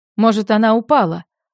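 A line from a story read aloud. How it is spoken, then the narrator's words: Shouting from another room. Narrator (Russian): Он уже оттуда крикнул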